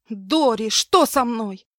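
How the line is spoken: Screaming again. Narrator (Russian): я снова закричала

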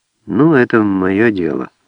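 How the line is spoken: Muffled, dull voice. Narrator (Russian): глухо сказала Альбина

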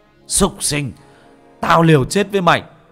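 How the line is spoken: Shout. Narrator (Vietnamese): anh Điền hét lên

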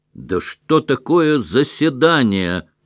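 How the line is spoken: Shout. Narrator (Russian): крикнул голос

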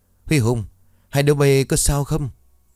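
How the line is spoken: Urgent, alarmed shout. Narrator (Vietnamese): Anh Cường ở trên nhìn thấy đồng đội bị rơi thì vội hét lớn

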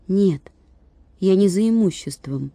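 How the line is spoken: Timid explanation. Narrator (Russian): робко объяснил Владик

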